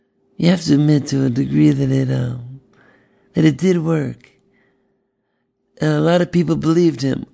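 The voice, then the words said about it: Imitates another person's voice. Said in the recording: “debut of my Ben Carson impression.”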